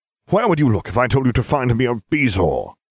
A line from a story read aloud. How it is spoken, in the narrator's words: he snapped